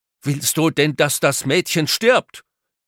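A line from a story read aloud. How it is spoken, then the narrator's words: Male call. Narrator (German): van der Tholen merkte, dass alle seine Tricks und Finden bei dem Neffen nicht verfingen, rief er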